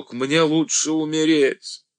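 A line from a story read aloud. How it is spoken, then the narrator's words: Shouted upward. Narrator (Russian): Пергаменщиков выкрикнул в потолок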